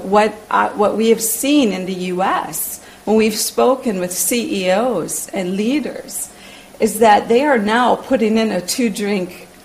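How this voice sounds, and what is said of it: American accent. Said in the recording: “you hear an American accent,”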